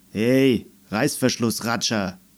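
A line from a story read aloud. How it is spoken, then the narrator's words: Grumbling. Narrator (German): brummte er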